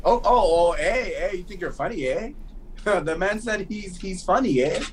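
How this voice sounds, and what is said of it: Put-on Toronto Canadian accent. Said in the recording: “that's a Toronto accent right there”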